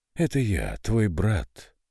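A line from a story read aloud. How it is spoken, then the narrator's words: Hoarse voice. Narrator (Russian): Хриплый голос визитера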